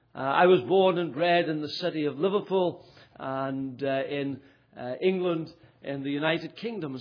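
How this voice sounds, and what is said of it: Northern Irish Ulster accent. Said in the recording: “Maybe you would say his accent is from Ulster, but I'm actually from England ... despite the accent”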